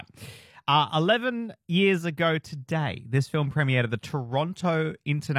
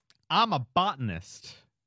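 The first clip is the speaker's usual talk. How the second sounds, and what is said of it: Poor put-on American accent. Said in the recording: “that's bad. That's a bad American accent.”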